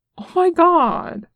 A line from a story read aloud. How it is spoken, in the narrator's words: Nick exclaimed